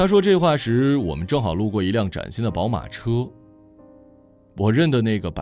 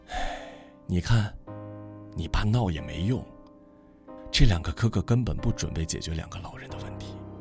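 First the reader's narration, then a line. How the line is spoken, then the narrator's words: Sighing mother. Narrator (Chinese): 母亲 边叹气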